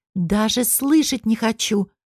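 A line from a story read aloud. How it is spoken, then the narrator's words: Exclamation. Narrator (Russian): воскликнула Ленка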